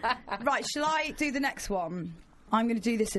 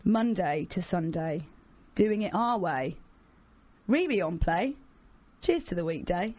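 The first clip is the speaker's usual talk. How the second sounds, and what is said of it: Solemn, grave reading voice. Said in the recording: “this in my most solemn voice”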